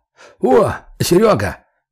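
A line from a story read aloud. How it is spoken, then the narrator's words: Shouted. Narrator (Russian): крикнул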